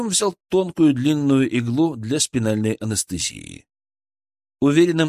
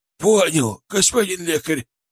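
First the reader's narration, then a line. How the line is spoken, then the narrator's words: Old man's hoarse rasp. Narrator (Russian): прохрипел старик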